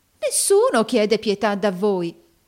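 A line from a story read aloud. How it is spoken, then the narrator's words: Warm exclamation, old man. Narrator (Italian): esclamò calorosamente il vecchio mercante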